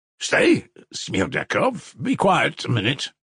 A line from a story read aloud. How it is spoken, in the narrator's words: cried Fyodor Pavlovich once more